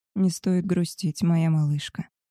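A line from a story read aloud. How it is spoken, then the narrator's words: Quiet male speech. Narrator (Russian): тихо сказал Габриэль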